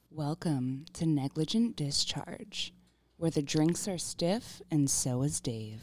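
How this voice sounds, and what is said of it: Deep, lowered voice. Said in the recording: “Deep voice.”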